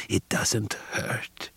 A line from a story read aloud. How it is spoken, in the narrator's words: He whispered in my ear